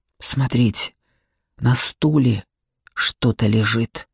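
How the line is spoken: Whispered. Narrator (Russian): прошептала Алина

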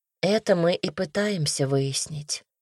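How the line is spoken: Said quietly. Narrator (Russian): тихо сказала Настя

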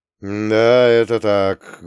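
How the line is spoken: Muffled voice. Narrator (Russian): глухим голосом произнес молчавший до того Ганс Роттенхубер

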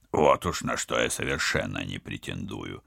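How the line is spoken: Embarrassed grumble. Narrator (Russian): смущенно проворчал спецагент

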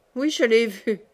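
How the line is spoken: Sneering laugh. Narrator (French): reprit-il en ricanant

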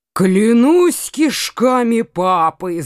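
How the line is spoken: Roar. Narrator (Russian): зарычал Коканас

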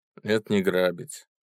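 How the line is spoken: Calm. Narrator (Russian): спокойно ответил пойманный

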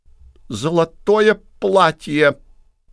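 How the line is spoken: Strained guinea fowl voice. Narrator (Russian): трудным голосом ответила цесарка

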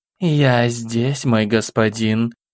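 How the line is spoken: Sultry low coo. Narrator (Russian): томным грудным голосом проворковала Кали

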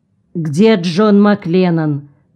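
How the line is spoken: Stern question. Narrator (Russian): строго спросил Бычков

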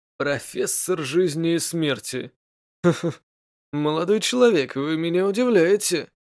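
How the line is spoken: Laughing. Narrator (Russian): рассмеялся Игнира

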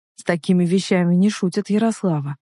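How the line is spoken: Soft. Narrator (Russian): произнес он мягко

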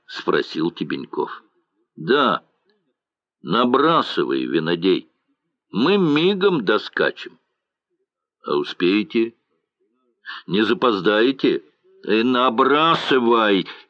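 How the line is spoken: Cheerful angry command. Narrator (Russian): весело гневно приказал Морозов

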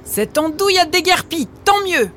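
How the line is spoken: Relieved shouting. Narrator (French): Bien content d'être enfin débarrassée de lui, Margot en criant

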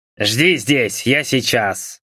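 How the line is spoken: Old man's displeased grumble. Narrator (Russian): Недовольно проворчал старик

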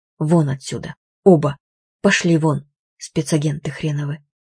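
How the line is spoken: Quiet. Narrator (Russian): Она негромко произнесла

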